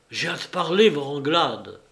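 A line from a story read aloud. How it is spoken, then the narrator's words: Exclaimed. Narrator (French): s'écria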